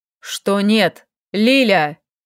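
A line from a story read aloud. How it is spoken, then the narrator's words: Elf barking, losing patience. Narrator (Russian): Не выдержав, рявкнул эльф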